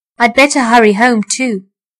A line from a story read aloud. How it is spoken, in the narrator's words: said Mr